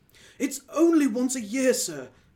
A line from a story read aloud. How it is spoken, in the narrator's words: pleaded Bob